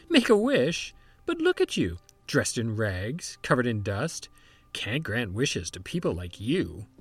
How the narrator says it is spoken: fairy godmother would laugh

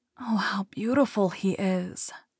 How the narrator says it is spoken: whispered Thumbelina to the swallow

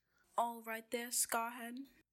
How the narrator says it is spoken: yelled Malfoy

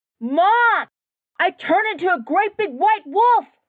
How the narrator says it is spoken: she screamed at the top of her lungs

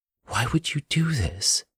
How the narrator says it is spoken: Marissa choked

